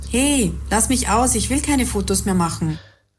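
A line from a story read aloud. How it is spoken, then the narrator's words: Panicked cry. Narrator (German): rief Juliane panisch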